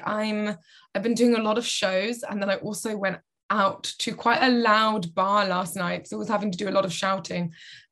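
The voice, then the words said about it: Tired, slightly croaky voice. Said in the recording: “I'm a little bit tired, and I'm sure you can probably all hear in my voice is a little bit croaky... my voice is a little croaky”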